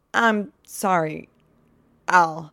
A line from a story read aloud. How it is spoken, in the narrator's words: Sean stammers